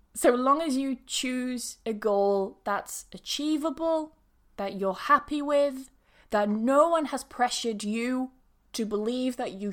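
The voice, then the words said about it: Speaker's own regional accent. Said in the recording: “why do you say past instead of past? Well, that's my accent ... It's my accent.”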